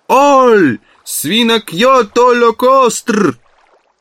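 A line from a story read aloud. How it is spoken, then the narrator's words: Shouting at full strength. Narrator (Russian): крикнул изо всех сил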